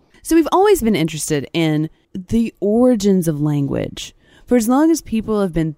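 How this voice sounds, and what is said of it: Usual voice. Nothing is said of it.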